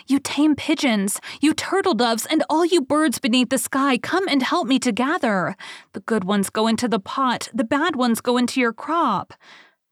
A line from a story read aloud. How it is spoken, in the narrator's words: called out